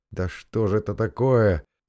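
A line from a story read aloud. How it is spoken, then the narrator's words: Almost moaning. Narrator (Russian): почти что простонал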